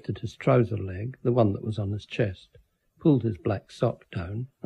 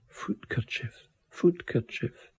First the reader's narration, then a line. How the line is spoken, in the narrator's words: whispering